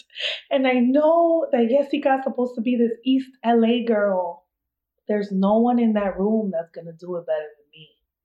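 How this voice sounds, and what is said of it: East Coast American accent. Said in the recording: “I know I'm an East Coast girl and I have this accent.”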